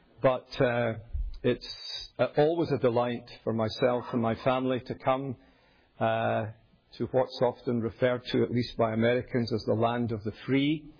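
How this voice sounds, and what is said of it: Glaswegian Scottish accent. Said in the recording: “I'm a Scot, born and raised in the great city of Glasgow ... my semi-mellifluous Scottish accent”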